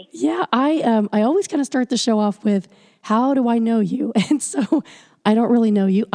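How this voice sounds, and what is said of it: Hoarse, fading voice. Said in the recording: “excuse my voice because I'm losing it”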